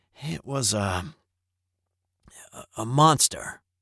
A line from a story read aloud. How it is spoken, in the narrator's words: Charlie then hesitantly said